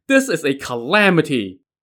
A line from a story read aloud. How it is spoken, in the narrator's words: Li Jing stamped his foot and cried